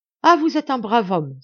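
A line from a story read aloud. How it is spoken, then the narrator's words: Priest exclaiming. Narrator (French): s'écria l'abbé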